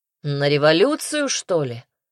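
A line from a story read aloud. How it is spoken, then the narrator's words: Snorted. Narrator (Russian): фыркнул Казимир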